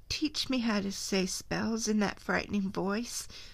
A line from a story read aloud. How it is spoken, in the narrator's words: Wendy begged